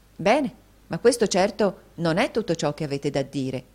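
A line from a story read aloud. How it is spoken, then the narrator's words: Woman's exclamation. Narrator (Italian): esclamò la signorina Price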